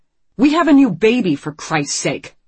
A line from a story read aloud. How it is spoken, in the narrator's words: Marco snaps, raising his voice